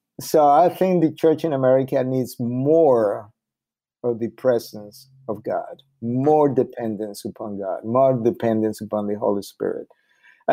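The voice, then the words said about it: Spanish accent in English. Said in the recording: “my accent in Spanish”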